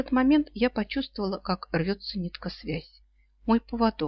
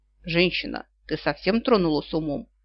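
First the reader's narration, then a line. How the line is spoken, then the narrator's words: Dragon's bark. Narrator (Russian): рявкнул на Диар какой-то дракон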